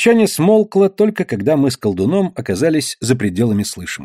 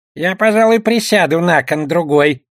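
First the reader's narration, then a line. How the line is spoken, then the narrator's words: Goblin grumbling. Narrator (Russian): проворчал гоблин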